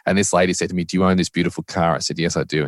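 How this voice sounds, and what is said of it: Australian accent. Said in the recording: “I'm a white Australian guy with an accent”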